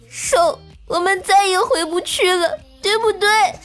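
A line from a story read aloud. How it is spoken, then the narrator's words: Crying. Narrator (Chinese): 他突然哭着对我说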